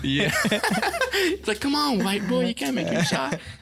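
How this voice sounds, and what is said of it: Imitates another person's voice. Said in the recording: “good like Chris Tucker impression.”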